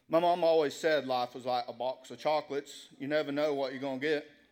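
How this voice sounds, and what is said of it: Forrest Gump impression accent. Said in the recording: “I'm going to do an accent for this one. ... Forrest Gump”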